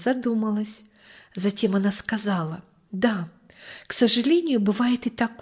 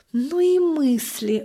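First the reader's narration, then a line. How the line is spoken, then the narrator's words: Sighing mother. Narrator (Russian): вздохнула мама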